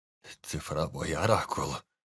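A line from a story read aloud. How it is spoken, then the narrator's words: Hoarse, trembling. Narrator (Russian): хрипло произнес Анджей, которого била мелкая дрожь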